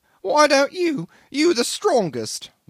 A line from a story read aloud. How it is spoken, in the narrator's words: whined the little engineer